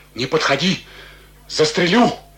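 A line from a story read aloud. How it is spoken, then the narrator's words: Muffled trembling voice. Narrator (Russian): Он говорил глухим, дрожащим голосом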